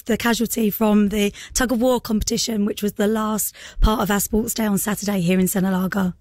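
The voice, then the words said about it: Hoarse, partly lost voice. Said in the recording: “you've lost your voice a little bit, which means you've been shouting ... my voice is”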